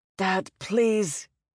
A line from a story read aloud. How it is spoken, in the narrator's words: Val groaned